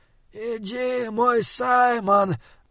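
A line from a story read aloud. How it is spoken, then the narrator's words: Clear breathed voice. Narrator (Russian): выдохнул он, и голос его отчетливо доносился сквозь пламя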